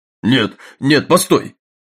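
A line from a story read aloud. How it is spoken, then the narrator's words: Exclaimed. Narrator (Russian): воскликнул Джеймс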